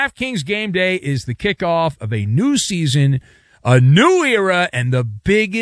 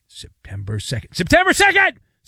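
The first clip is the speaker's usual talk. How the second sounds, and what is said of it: Yelling. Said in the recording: “I'm yelling.”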